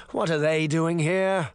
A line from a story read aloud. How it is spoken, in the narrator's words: he moaned